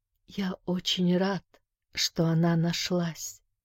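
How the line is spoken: Barely audible whisper. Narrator (Russian): прошептал тот едва слышно

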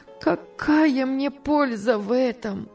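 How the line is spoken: Sobbing. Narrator (Russian): отвечала она, рыдая

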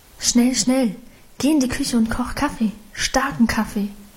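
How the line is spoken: Murmured urgently. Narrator (German): raunte sie ihrem Mann zu

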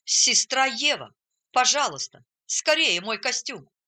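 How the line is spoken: Exclamation. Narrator (Russian): Он воскликнул

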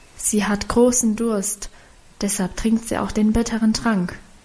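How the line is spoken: Whispered explanation. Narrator (German): erklärte flüsternd

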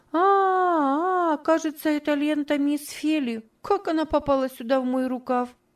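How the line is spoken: Surprised innocent exclamation. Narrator (Russian): удивленно, с видом полнейшей невинности, и воскликнула

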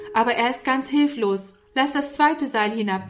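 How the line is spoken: Calling up. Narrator (German): rief Norman herauf

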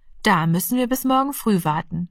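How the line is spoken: Plain. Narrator (German): sagte die Mutter

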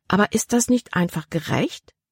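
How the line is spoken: Plain question. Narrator (German): fragte Libby

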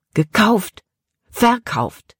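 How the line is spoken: Angry outburst. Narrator (German): Caleb stieß die Worte wütend hervor

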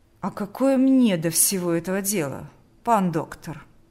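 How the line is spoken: Dry question. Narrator (Russian): Сухо спросил Орловский

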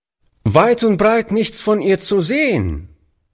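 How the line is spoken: Boy calling out. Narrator (German): rief der Junge dem alten Mann zu

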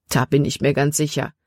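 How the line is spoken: Plain. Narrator (German): antwortete er

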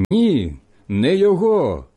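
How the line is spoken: Shouting again. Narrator (Ukrainian): знову закричали ті

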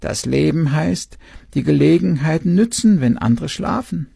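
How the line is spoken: Owl croaking. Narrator (German): der Uhu krächzte

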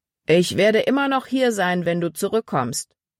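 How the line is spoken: Calling after someone. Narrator (German): rief Paul ihr nach

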